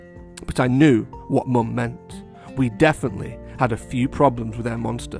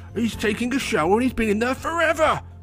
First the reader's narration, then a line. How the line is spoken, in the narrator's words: shouted Mum